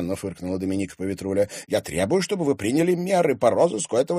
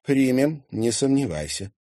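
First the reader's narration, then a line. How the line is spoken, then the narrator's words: Tired reply. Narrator (Russian): устало ответила ей Елена Федоровна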